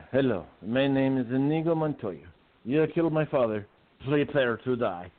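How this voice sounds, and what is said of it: Spanish-accented Inigo Montoya impression. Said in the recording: “In a nice Spanish voice.”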